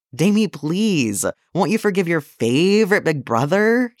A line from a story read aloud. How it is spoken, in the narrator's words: whined